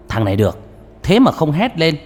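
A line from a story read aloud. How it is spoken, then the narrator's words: Loud laugh. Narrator (Vietnamese): Ông mổ não cười to một tiếng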